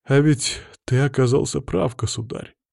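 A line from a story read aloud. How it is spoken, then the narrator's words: Sad sigh. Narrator (Russian): грустно вздохнул Никита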